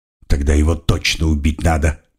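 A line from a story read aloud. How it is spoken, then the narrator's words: Disappointed grumble. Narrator (Russian): буркнул Генрих, который, несомненно, был крайне разочарован нашим поведением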